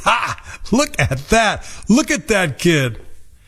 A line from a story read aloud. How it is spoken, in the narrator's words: His friends laughed hard and laughed like mockers and scoffers